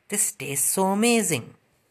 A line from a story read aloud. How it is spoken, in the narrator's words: smiled and exclaimed